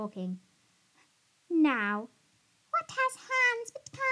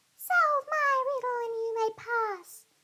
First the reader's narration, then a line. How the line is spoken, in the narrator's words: the fairy screeched